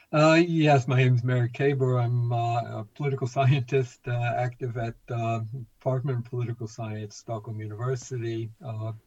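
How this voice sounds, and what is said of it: American English accent. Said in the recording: “you can hear from my accent, originally from the United States”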